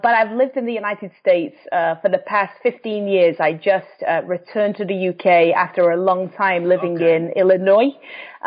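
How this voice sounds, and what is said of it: English accent. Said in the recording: “you can tell from the accent, I'm from England”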